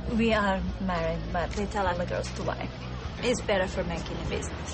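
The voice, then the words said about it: Czech-accented English. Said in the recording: “Your accent. You're from, don't tell me, Budapest, right? ... Prague.”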